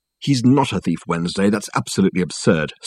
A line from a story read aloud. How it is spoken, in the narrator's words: snapped Richard, instantly getting drawn into it in spite of his resolution not to